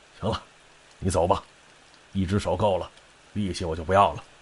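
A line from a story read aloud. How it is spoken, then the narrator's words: Sighing after long silence. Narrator (Chinese): 沉默半晌，这缺爷叹了口气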